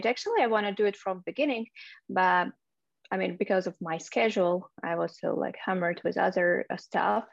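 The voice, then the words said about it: Belarusian-accented English. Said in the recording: “your lovely accent ... Originally, I'm from Belarus. I was born in Minsk.”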